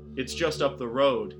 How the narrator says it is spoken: said

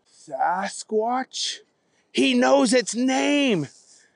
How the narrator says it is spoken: yelled their dad

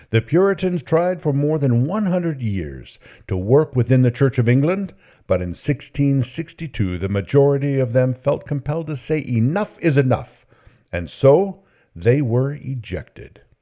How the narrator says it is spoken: The Protestant was passionate about his cause shouted

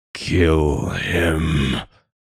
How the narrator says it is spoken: murmured

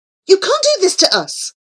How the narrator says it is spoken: cried Prince Florian

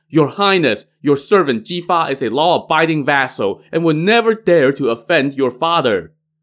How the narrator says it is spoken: Ji Fa shouted

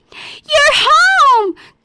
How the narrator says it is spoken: Goldie shouted

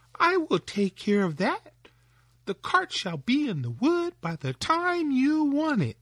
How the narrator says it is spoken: cried Tom

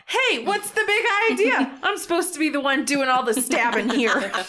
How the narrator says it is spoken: he kind of shouts

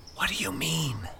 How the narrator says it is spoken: Mike whispered conspiratorially

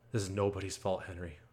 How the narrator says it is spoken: says calmly

